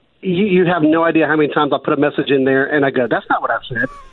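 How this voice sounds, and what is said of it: Southern American accent. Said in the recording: “as you can hear, ... has a Southern accent”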